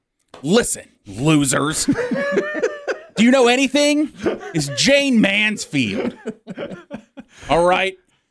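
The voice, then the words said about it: Impression of correcting caller. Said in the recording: “do an impression of callers that called to say... To correct us”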